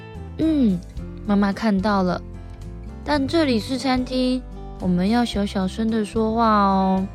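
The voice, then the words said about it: Soft, quiet speaking voice. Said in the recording (Chinese): “小小声的回胖胖说”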